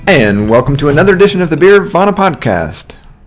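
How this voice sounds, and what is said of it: Announcer voice. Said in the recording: “my new announcer voice”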